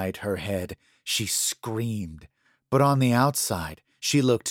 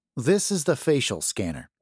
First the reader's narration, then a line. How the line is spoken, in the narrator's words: Daniel said